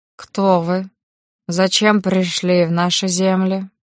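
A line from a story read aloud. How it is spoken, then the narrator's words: Deep throaty growl. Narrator (Russian): Рычащий звук, казалось, рождался где-то глубоко в горле, оставляя челюсть говорившего неподвижной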